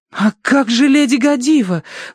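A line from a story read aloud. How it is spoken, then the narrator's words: Desperate exclamation. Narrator (Russian): в отчаянии воскликнула Верити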